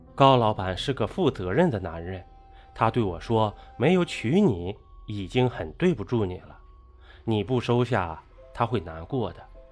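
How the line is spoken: Long sigh. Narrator (Chinese): 郑先生长叹了声气道

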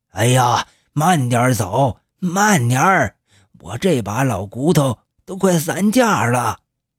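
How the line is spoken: Breathless complaining. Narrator (Chinese): 老黄气喘吁吁的在后面埋怨

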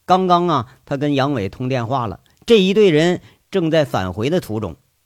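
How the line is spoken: Flat, calm. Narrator (Chinese): 吴铁军淡淡的说一句

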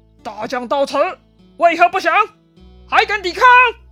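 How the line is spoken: Fearless retort. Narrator (Chinese): 严颜完全没有惧色，反问张飞

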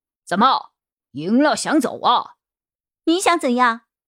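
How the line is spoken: Shouting. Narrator (Chinese): 马院长大喊

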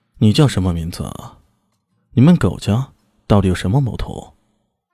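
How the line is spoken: Cold. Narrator (Chinese): 李炫冷冷的说道

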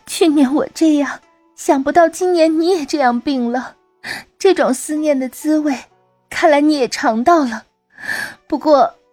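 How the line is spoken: Sobbing. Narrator (Chinese): 她来到禅公床前，呜呜的哭泣道

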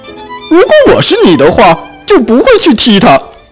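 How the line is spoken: Loud roar. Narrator (Chinese): 大肚子河马大吼

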